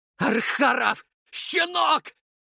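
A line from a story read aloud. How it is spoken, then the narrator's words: Very loud echoing yell. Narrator (Russian): заорал Водопьянов так громко, что его голос эхом разнесся над рекой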